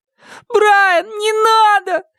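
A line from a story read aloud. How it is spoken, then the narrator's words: Tearful pleading. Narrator (Russian): взмолился Шон со слезами на глазах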